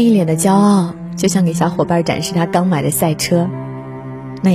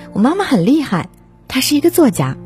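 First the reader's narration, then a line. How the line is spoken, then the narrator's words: Loud telling. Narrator (Chinese): 姑姑很大声的告诉对方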